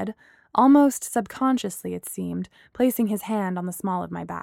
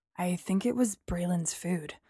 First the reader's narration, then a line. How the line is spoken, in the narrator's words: Apollo whispered